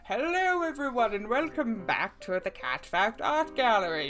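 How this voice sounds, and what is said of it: Silly put-on presenter voice. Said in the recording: “doing this silly voice”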